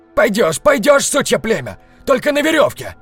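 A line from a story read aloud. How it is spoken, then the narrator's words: Yelling, trembling voice. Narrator (Russian): заорал тот, у которого дрожал голос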